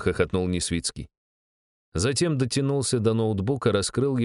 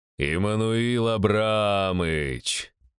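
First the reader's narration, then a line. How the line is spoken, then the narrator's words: Drawn out, smiling. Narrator (Russian): протянул я с улыбкой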